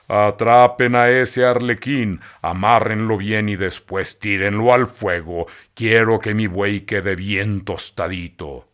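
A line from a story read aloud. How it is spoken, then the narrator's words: Booming voice. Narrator (Spanish): el titiritero les dijo con voz estentórea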